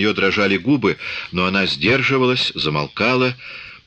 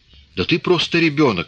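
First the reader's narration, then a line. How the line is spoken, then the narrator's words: Exclaiming. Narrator (Russian): воскликнула она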